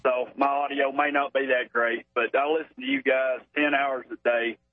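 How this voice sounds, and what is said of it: Thick Arkansas accent. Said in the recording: “that thick Arkansas accent ... It's hard to understand”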